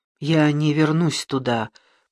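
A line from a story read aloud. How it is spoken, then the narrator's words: Muttering. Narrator (Russian): пробормотала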